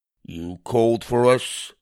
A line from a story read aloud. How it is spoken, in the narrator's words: croaked the oldest